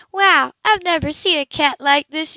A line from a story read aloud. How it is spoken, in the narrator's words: he exclaimed